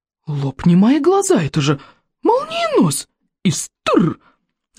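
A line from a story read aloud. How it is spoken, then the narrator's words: Astonished exclamation, old elder. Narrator (Russian): воскликнул в изумлении старейший старейшина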